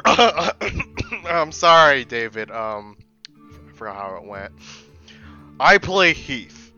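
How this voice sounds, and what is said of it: Role-play character voice. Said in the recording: “character voice, please. Everyone else did character voice.”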